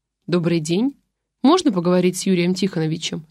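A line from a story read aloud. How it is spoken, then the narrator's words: Plain. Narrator (Russian): спросила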